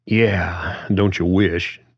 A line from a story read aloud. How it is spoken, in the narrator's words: John sighed again